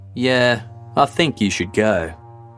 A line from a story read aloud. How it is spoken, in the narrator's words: In an equally unconcerned tone, replied